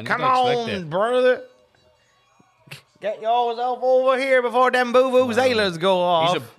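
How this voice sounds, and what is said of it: Imitates a drawling voice. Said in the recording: “Just that drawl of his, man.”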